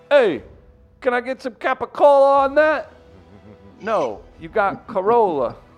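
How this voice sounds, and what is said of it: Thick fake New York accent. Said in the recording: “fake New York thick accents ... the thick accent”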